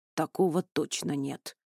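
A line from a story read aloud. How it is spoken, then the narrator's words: Grumbled mutter. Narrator (Russian): буркнул Туч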